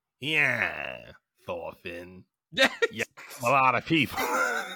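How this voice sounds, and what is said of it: 1950s detective style character voice. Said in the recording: “You like my Askeladd impression? ... I thought you were a detective from the 1950s.”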